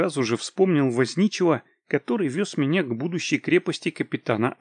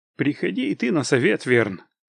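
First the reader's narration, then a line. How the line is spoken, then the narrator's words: Cold. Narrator (Russian): холодно произнес я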